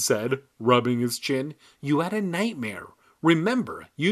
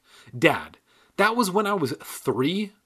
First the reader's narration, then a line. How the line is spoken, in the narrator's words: I cried